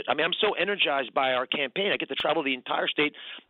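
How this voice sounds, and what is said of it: Hoarse voice. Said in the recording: “You can tell I'm a bit hoarse from talking so much.”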